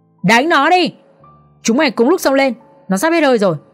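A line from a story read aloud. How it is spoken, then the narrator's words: Loud yelling. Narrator (Vietnamese): Tên mặt sẹo hét lớn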